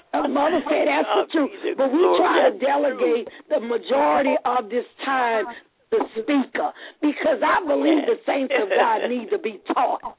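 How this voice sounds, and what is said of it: Southern US (Louisiana) accent. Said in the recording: “I don't have the best diction, and you know I have an accent because I'm from the South. I'm from Louisiana. I'm a Southern girl”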